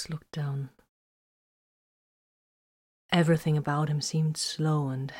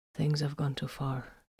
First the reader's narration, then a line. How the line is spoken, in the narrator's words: he stated quietly